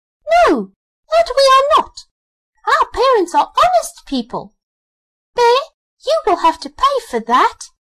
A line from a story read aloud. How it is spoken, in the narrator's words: When the young wrens heard that, they were frightfully angry and screamed